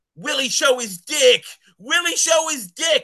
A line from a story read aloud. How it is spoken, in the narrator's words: one person kept yelling